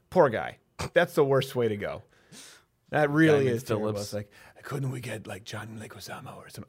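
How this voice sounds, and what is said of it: Imitates another person's voice. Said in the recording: “doing the Steven Seagal voice.”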